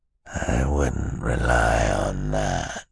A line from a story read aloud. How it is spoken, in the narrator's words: he said in a terrible, terrible voice